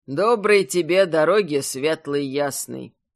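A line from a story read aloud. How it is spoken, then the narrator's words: Calm. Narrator (Russian): Спокойно сказал чародей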